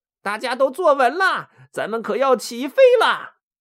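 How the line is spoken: Smiling. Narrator (Chinese): 浣熊微笑着对他们说

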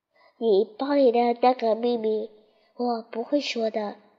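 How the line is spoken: Soft. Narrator (Chinese): 兔子对他轻声说

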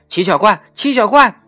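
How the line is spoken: Hurried calling. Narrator (Chinese): 蒋一伦慌忙地……叫着

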